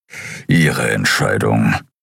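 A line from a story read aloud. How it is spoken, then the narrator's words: Grumbled. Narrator (German): brummte Keru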